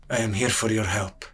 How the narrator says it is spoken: sellsword muttered

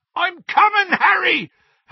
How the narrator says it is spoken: Hagrid yelled from out of the darkness

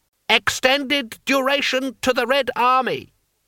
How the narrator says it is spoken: Cries rose up here and there in the crowd

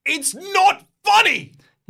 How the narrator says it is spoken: You shout at the dragon

